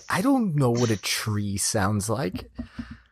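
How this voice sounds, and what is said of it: Imitates another person's voice. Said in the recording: “You did a great Rodney impression”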